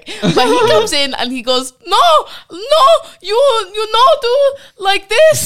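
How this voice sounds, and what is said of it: Put-on Swedish accent. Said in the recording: “Because Swedish accent, by the way. Yeah. That is incredible. ... I swore a Swedish person just ran into the room.”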